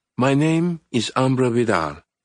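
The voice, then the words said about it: Cultured woman, light Spanish accent. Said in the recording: “her voice cultured and gracious, with a light Spanish accent”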